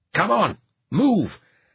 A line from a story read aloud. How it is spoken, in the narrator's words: Assace snarled at him